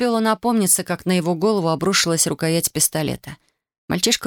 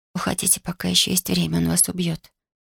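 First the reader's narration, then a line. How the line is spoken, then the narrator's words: Prompt whisper. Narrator (Russian): Татьяна, не задумываясь, прошептала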